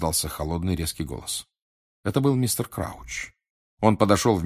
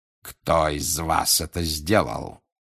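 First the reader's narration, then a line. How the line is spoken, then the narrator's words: Growling. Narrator (Russian): зарычал он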